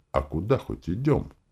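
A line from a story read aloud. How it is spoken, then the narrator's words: Quiet question. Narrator (Russian): так же тихо поинтересовался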